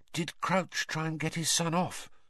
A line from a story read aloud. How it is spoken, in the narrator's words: Hermione whispered